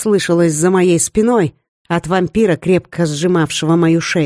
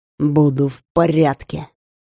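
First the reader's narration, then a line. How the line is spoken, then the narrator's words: Hoarse, wounded rasp. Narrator (Russian): прохрипел раненый вампир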